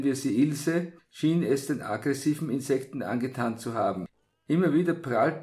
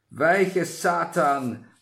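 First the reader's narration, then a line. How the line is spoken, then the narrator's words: Thundering voice. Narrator (German): eine donnernde Stimme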